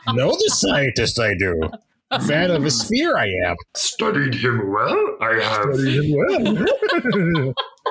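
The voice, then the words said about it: Yoda-like character voice. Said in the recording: “It kind of sounded more like Yoda”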